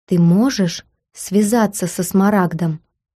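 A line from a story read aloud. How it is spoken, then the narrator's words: Very quiet question in ear. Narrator (Russian): Гордон склонился к моему уху и очень тихо спросил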